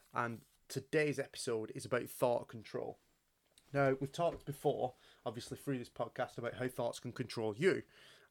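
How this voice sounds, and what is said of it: Stuffy, congested, slightly deeper voice. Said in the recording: “I've got a bit of hay fever problems ... my voice is a bit deeper, I'm a bit stuffier”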